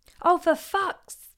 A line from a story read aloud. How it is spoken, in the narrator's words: howled